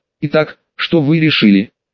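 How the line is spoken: Calm question. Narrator (Russian): спокойно спросила инопланетянка

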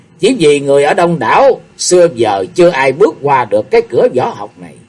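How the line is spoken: Smiling. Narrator (Vietnamese): Xung Đại Sư mỉm cười

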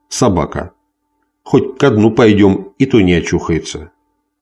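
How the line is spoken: Disgusted mutter. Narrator (Russian): Фриско Кит с отвращением пробормотал

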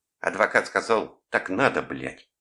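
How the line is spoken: Nasty squeaky voice. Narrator (Russian): говорит он своим мерзким голоском

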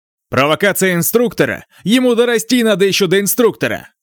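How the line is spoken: Loud declaration. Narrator (Russian): Старший брат Луо громко заявил

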